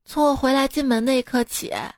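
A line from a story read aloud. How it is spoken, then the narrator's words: Deep sigh. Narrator (Chinese): 老婆长叹一口气说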